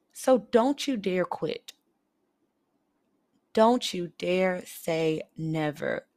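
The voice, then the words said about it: Serious, emphatic tone. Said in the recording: “This is my serious voice.”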